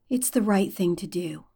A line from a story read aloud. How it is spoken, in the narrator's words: Derek says quietly